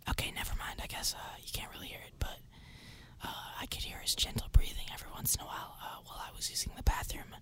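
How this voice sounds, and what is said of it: Soft whispered ASMR voice. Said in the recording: “I'm whispering right now, and I'm also whispering because I'm giving you ASMR”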